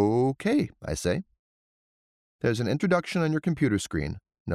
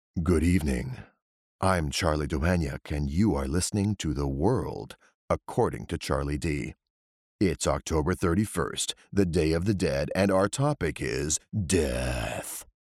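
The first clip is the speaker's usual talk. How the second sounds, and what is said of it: Deep sepulchral horror-villain voice. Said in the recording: “I take it down a few notches and open with the sepulchral tones of the villain in a horror movie”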